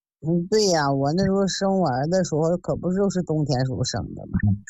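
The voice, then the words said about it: Northern Chinese accent. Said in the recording (Chinese): “听你这口音还是北方的”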